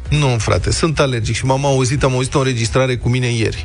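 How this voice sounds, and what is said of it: Slightly hoarse, altered voice. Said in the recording (Romanian): “Vlad spune că nu ești răgușit, ești doar alergic. Am întrebat colegii în dimineața asta dacă sunt răgușit ... chiar sună altfel”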